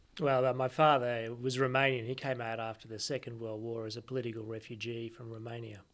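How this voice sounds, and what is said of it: Australian accent. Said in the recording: “you've got an Australian accent”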